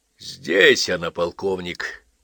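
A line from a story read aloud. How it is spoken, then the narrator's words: Hoarse male voice. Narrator (Russian): хриплый мужской голос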